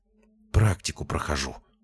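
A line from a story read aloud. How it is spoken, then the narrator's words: Muttered. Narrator (Russian): пробормотала она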